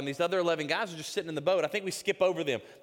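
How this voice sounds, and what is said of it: Mississippi Southern accent. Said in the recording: “I'm from Mississippi. So if you hear that accent coming out a little bit there, y'all are getting the Mississippi accent.”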